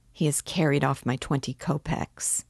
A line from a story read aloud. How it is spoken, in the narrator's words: Raskolnikov murmured angrily